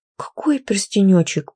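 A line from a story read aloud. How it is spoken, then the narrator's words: Whimpering. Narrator (Russian): проскулила я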